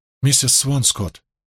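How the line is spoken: Quiet. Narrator (Russian): Мэтью тихо произнес

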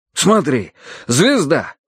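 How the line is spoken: Exclaiming. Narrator (Russian): воскликнул Карадерс

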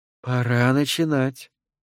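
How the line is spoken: Quiet command. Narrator (Russian): тихо приказала я

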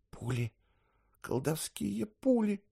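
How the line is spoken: Mutter. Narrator (Russian): пробормотала Пия

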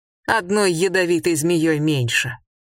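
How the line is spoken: Laughing. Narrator (Russian): Он снова рассмеялся

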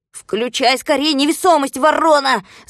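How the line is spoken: Shouting. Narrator (Russian): закричал Винтик

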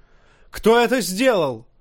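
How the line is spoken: Yelling. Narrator (Russian): заорал Джоффри

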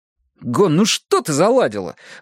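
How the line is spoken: Exclaiming. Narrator (Russian): воскликнул я

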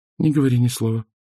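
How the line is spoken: Quiet. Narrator (Russian): тихо произнесла она

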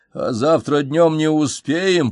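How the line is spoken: Mumbling. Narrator (Russian): пробурчал я

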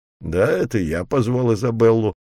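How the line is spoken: Grumbling. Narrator (Russian): проворчал Робби

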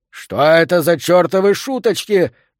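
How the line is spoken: Roaring. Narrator (Russian): наконец взревел он

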